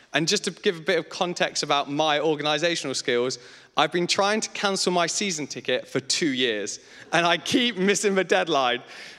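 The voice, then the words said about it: Leicester English accent, clipped words. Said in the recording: “I'm from Leicester. So I apologize for the horrendous accent, because nobody goes, oh, I'd like a Leicester accent. ... So when I leave words short”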